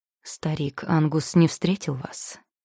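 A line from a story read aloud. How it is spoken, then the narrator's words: Plain. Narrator (Russian): спросил Селдон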